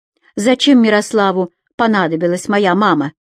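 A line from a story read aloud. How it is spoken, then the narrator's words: Barked. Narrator (Russian): рявкнула Татьяна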